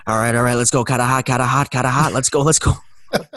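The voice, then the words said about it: Put-on Boston accent. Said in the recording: “he does the Boston accent because he's from Massachusetts”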